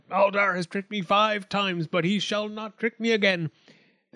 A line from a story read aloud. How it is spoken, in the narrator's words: The goat man cried